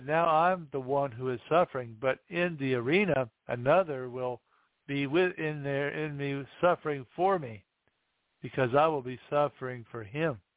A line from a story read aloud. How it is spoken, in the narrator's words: she said